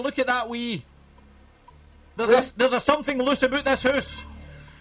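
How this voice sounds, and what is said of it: Put-on Scottish accent. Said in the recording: “If you were saying it in a Scots accent”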